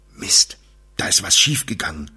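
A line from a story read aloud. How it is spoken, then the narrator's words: Murmured. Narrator (German): murmelte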